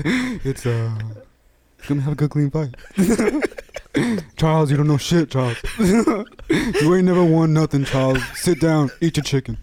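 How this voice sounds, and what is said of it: Shaq impression. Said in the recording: “That Shaq impression”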